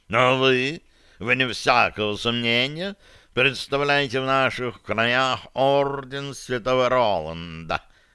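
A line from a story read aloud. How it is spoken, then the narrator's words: Cat purring. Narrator (Russian): промурлыкал кот да Винчи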